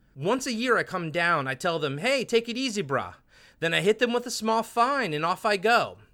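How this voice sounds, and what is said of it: Exaggerated pidgin accent. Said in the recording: “This is your terrible pigeon accent, by the way.”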